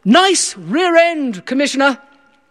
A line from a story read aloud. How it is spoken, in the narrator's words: someone shouted out